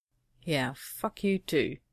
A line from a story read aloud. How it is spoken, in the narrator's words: John muttered